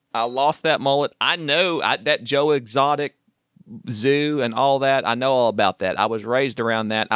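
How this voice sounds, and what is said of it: Oklahoma accent. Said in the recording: “my accent and me mentioning that I'm from Oklahoma”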